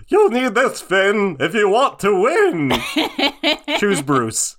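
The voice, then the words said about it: Choose Bruce voice, sounding like Jake the Dog. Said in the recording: “Was that Choose Bruce? I thought it was Jake the Dog.”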